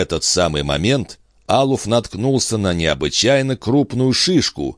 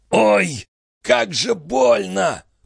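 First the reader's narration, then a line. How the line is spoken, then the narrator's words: Growl through clenched teeth. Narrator (Russian): прорычал Диадонат сквозь сжатые зубы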